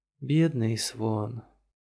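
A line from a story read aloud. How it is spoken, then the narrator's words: Sighing. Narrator (Russian): вздохнула Айна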